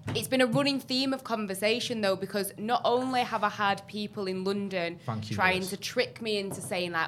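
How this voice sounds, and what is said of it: Mancunian English accent. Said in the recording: “you're going to lose your accent ... a community of Mancunian people in London ... I'm not losing it”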